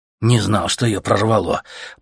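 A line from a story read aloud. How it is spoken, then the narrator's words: Shivering grumble. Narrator (Russian): пробурчал Леха, ежась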